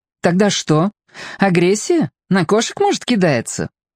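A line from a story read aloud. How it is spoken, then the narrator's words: Laughing. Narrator (Russian): Лена рассмеялась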